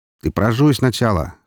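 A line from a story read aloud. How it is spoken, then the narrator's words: Snorting. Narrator (Russian): хмыкнул Роман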